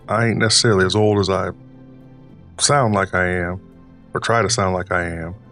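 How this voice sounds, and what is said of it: Put-on old Southern man's voice. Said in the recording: “This isn't my normal speaking voice ... The voice actually comes from an impersonation I used to do of my dad, because he was from the South ... he still had that accent to him”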